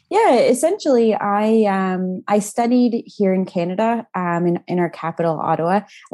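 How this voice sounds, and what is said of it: Canadian accent with Australian touches. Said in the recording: “your accent's probably thrown a few people. They're thinking, is she Canadian? Is she Australian?... it's more hearing a Canadian say certain Australian words”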